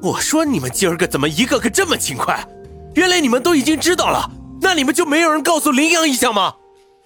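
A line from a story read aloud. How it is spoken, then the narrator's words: Angry shout. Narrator (Chinese): 云峰已经脸色阴沉，吼道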